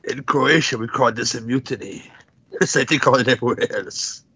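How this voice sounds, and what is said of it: Vague put-on foreign accent. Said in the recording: “Whatever the fuck that accent is.”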